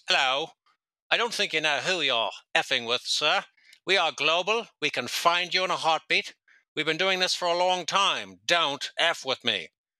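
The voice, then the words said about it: Mock British accent. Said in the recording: “He's going off in this stupid Brit accent.”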